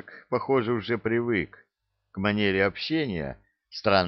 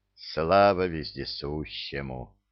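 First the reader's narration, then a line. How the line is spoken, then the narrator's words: Muffled mutter behind mask. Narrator (Russian): пробормотал незнакомец в маске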